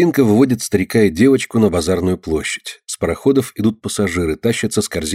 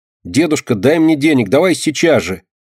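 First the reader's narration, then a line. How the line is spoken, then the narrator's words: Angry shouting. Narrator (Russian): Сердито кричит она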